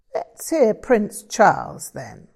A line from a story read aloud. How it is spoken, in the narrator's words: Frank chuckled